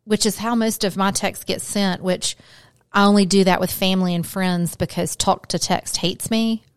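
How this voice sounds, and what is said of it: Southern US accent. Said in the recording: “I clearly have enough of a Southern accent”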